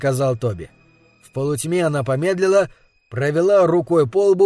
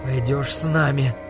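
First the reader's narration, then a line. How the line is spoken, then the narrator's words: Trembling voice. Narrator (Russian): дрожащим голосом сказала Карла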